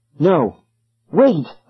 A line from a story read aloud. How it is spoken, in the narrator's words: I cried